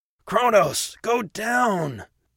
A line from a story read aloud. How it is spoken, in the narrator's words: Atticus shouted